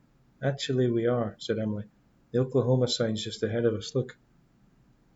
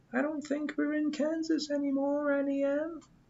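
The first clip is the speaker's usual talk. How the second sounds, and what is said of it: Squeaky falsetto voice. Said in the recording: “In a squeaky falsetto”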